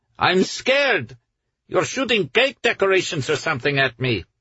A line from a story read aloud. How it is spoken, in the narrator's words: Almay shouted in reply